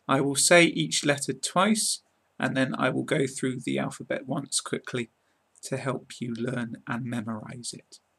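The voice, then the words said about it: British English accent. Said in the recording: “learn how to speak with a British accent ... pronounce them in my British accent”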